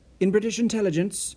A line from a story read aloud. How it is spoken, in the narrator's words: Nessen blurted out